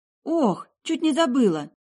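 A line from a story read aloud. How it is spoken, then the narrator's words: Ringing exclamation. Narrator (Russian): звонко воскликнула я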